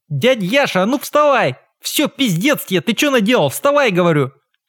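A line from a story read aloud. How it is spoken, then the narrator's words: Sudden shout. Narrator (Russian): он вдруг прокричал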